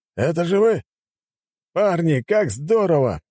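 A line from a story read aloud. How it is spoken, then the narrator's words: Exclamation. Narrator (Russian): воскликнул он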